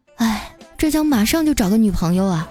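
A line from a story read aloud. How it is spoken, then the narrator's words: Sighing. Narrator (Chinese): 他叹了口气啊，说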